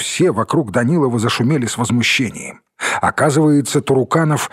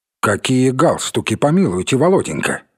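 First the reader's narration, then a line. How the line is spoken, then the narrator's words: Stern question. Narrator (Russian): строго спросил Туруканов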